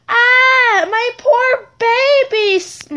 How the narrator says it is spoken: my mom yelled

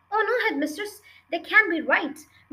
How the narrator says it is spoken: Miss Honey cried

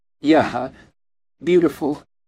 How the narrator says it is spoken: barely managed to compose himself and stammer

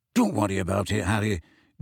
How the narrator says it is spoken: Dean muttered

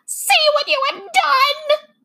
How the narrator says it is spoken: screamed

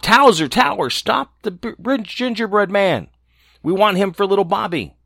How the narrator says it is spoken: the cook called out

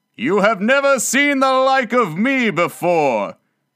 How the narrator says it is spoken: exclaimed the spirit

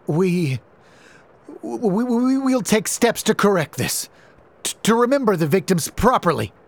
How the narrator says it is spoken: he stammered, his previous arrogance long gone

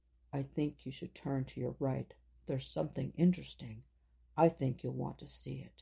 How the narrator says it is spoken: in a low voice said to Rena

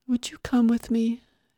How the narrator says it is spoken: lips were pinched, her voice sad

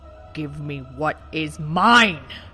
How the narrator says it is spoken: Ganondorf bellowed

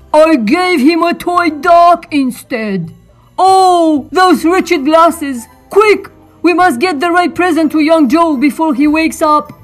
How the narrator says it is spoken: cried Santa

